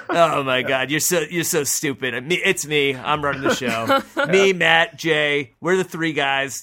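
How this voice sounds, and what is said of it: Imitates another person's voice. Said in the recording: “Is that the same impression you do for every other member of that alliance?”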